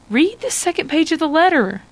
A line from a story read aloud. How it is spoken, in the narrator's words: Hannah says eagerly